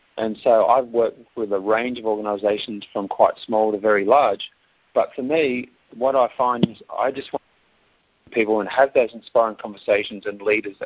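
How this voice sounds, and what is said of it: Strong Australian accent. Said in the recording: “live in Australia, and for those US listeners today, enjoy my accent. I do hear it does come across quite strong.”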